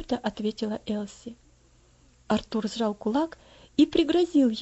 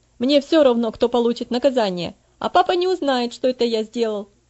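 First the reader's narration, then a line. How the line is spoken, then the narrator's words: Angry. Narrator (Russian): сердито продолжал он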